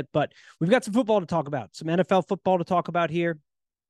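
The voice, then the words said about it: Hoarse, worn-down voice. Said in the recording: “My voice is a little hoarse. ... just a little worn down, changing of the season. ... I do apologize for my voice today if it goes out a little bit.”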